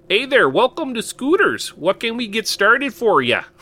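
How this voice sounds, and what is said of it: Put-on Minnesotan accent. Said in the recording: “I'd try to put on a Minnesotan accent.”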